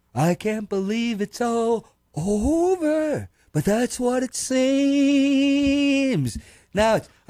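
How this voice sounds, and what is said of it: Donald Trump impression. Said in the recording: “you don't have to do an impression. You can just be you. ... that's actually very good.”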